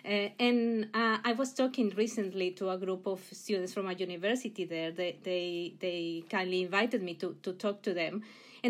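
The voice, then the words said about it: Mexican accent in English. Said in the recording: “I come originally from Mexico. You'll hear the accent, I'm sure.”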